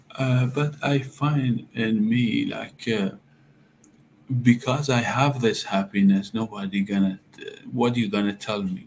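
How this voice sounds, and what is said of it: Non-native English accent. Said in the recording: “like as immigrant come with accent people”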